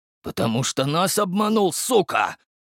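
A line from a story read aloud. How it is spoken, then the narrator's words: Hissed. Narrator (Russian): прошипел Спица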